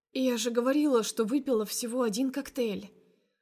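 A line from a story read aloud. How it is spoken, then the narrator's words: Hoarse but carefree. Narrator (Russian): охрипшим, но беспечным голосом выдаю я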